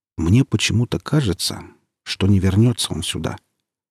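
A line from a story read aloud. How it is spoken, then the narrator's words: Medic speaking quietly. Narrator (Russian): тихонько сказал фельдшер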